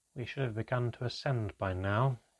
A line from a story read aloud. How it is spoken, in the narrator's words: he muttered to himself